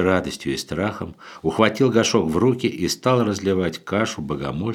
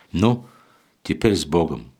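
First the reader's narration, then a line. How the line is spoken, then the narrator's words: Tender. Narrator (Russian): ласково проговорил блаженный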